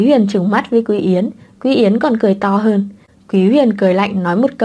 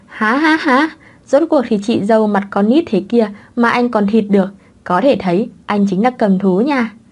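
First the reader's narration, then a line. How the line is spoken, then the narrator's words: Laughing loudly. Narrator (Vietnamese): Quý Yến cười to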